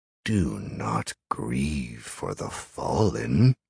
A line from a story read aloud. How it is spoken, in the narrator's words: the creature purred, its voice almost soothing in his mind